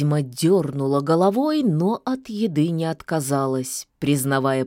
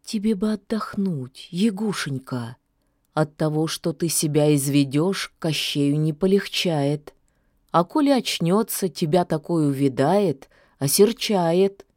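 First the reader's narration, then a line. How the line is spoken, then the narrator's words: Soft, gentle. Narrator (Russian): мягко сказала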